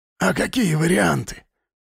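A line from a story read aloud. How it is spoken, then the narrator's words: Hissing. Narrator (Russian): прошипел Тимуров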